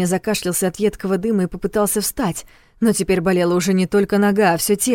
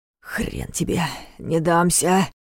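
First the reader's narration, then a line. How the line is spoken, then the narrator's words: Growl. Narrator (Russian): прорычал Ваня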